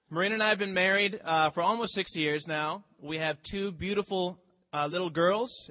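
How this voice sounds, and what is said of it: Speaks with a noticeable accent. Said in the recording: “It's my accent, right?”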